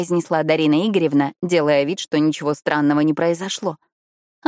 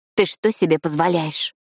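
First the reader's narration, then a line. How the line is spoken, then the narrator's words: Quiet, harsh hiss. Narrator (Russian): Тихо, но предельно жестко прошипела я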